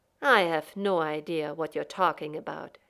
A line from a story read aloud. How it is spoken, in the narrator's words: Shepard said calmly, coldly